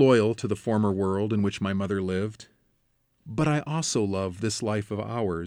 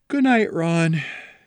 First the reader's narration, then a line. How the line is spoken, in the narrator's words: returned with a satisfied, drowsy sigh